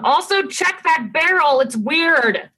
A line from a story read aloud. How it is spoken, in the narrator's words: yell down